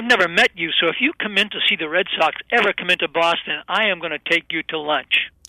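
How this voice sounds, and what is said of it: Boston accent. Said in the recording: “I love that accent. I absolutely love it.”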